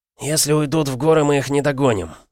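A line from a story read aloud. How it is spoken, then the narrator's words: Through gritted teeth. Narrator (Russian): сказал сквозь зубы Салим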